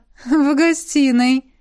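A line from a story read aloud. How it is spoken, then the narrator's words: Giggling. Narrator (Russian): хихикнула Элисандра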